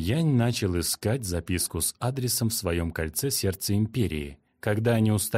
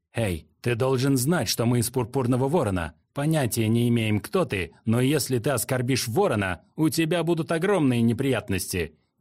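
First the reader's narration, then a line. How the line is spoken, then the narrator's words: Shouting. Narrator (Russian): крикнул Хун Мин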